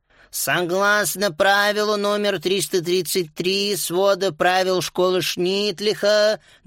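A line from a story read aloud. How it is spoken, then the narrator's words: Sing-song drawl, teacher. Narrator (Russian): нараспев затянула учительница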